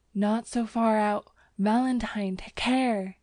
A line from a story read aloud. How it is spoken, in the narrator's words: he gasped